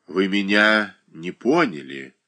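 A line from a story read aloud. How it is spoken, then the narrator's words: Lazy, offhand. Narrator (Russian): лениво и небрежно проговорила Оболенская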